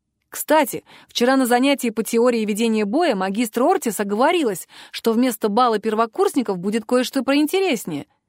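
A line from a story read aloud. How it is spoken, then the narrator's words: Plain. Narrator (Russian): сказал Бадлер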